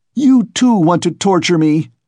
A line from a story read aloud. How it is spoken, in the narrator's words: he screamed with such bitter irritation, such despair